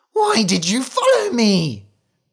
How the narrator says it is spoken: she cried

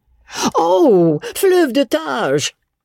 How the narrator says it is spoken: Miss Maria cried

